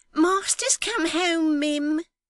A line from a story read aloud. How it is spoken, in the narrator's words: cried Miggs, running before him